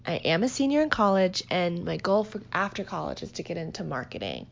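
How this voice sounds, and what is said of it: Valley Girl accent. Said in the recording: “my Valley Girl accent”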